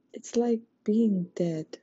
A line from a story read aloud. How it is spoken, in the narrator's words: she whispered